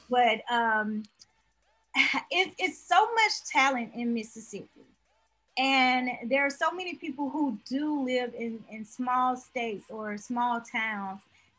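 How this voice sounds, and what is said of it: Mississippi Southern accent. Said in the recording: “I'm from Mississippi. I don't know if you can hear the accent in my voice.”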